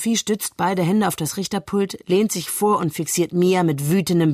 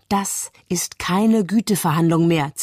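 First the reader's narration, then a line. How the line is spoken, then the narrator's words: Hissed. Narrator (German): zischt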